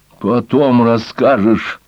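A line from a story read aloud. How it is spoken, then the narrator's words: Annoyed snort. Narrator (Russian): фыркнула разозленная бахвальством старого лиса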